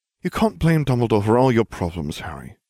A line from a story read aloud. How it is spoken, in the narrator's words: Hermione sighed